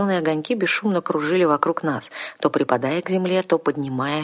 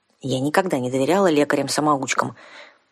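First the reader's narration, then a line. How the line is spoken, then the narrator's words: Grumbling young woman. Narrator (Russian): проворчала девушка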